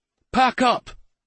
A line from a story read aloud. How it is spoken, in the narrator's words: he snapped